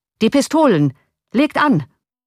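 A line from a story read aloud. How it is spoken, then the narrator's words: Called out. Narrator (German): rief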